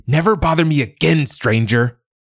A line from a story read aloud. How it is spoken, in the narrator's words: shouted